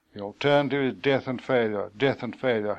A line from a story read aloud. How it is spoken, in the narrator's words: he muttered